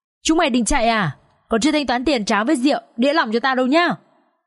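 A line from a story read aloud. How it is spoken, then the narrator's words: Barking shout, woman. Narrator (Vietnamese): bà chủ quán tráo lòng lao ra túm cổ, miệng thì quát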